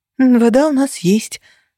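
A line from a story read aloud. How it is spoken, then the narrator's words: Sighing. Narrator (Russian): вздохнула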